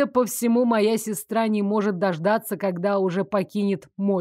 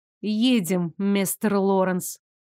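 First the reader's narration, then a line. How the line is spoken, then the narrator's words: Through clenched teeth. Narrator (Russian): процедила я, не желая быть объектом всеобщих насмешек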